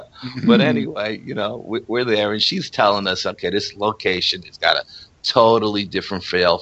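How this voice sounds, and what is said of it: New York Bronx accent. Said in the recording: “We're all from the Bronx. Of course we sound a little different. ... our New York accents.”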